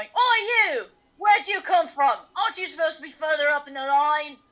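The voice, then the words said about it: Character voice with an accent. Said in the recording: “I don't know why this man has this accent, but he does now.”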